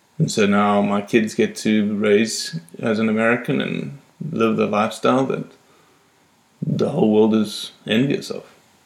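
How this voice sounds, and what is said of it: Non-American accent. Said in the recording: “you are envious of my accent. ... You are an American, but you do not have an American accent.”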